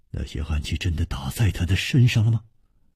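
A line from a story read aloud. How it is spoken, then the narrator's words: Trembling voice. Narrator (Chinese): 楚留香颤声说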